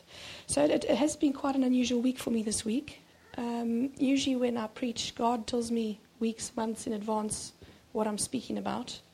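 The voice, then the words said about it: Voice affected by a cold. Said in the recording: “As you can hear, my voice isn't... I've had a cold the whole week.”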